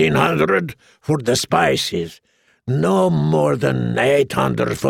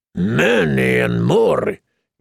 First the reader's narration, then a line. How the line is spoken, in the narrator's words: he said irritably